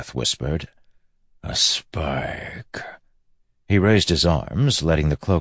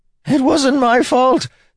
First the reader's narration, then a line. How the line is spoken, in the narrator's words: Templeton screamed